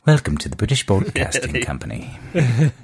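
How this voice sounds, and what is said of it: Generic BBC British accent. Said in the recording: “Could do a generic BBC British accent.”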